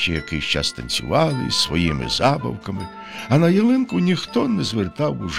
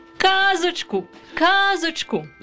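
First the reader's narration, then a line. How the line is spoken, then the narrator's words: Children shouting. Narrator (Ukrainian): закричали діти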